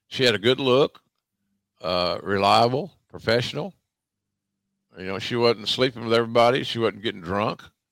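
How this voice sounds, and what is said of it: Southern American accent. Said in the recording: “she's going to fight the same battle that I was fighting. That's a Southern accent.”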